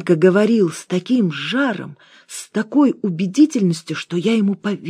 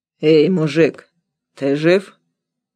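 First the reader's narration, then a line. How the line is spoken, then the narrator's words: Hoarse voice. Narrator (Russian): послышался хриплый голос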